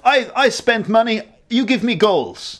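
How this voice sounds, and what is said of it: Attempted Russian accent. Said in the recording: “that's an attempt at a Russian accent.”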